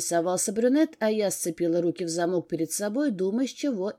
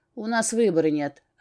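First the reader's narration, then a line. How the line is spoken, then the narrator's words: Smirking grunt. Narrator (Russian): хмыкнул блондин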